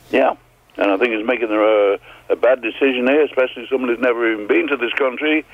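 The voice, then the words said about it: Speaks with a noticeable accent. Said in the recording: “I've been here for 65 years in Canada, and I've still got a friggin' accent ... it's a good one. I like to hear it.”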